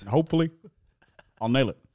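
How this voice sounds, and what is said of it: Staccato impression with clipped word endings. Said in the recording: “Your Barack is pretty good... It's quite staccato, isn't it? He doesn't really finish his words.”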